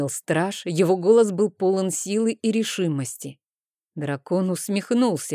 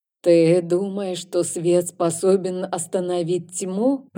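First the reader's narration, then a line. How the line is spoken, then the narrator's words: Eerie voice. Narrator (Russian): произнес Рейн жутким голосом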